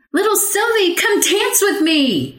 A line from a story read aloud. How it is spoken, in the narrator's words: She cried